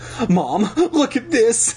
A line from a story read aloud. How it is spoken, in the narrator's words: I cried